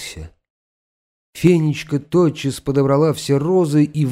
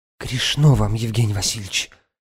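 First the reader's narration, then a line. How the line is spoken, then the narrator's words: Whispered. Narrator (Russian): шепнула она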